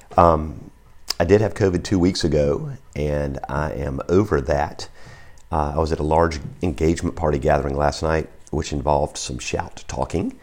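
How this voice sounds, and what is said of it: Hoarse voice. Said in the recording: “if you don't recognize my voice, because that's a little hoarse ... my voice is a little hoarse”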